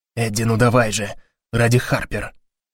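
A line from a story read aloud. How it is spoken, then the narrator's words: Whisper. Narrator (Russian): шепнул Гарри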